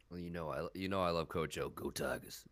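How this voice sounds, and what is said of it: Imitates another person's voice. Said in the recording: “That was a good impression”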